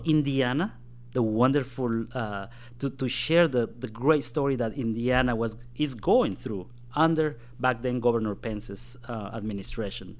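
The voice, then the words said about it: Non-native foreign accent. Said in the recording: “If you hear that I have an accent”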